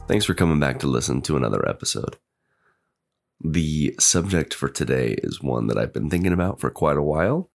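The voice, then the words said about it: Strained, groggy voice. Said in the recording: “I do have a bit of a cold, and my voice is um, is a little bit strained right now. So if it sounds a little different, a little groggy”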